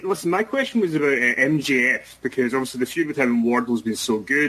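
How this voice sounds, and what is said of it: Scottish accent. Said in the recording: “a reporter with a wonderful Scottish accent”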